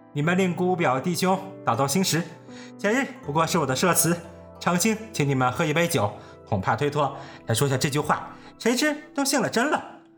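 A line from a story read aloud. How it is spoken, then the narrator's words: Laughing. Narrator (Chinese): 冯子英笑道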